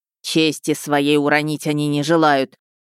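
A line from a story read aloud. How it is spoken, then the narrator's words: Nearly growling, angry. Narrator (Russian): едва ли не зарычал Харитон Семёныч, которому упали слова подчиненного на свежие дрожжи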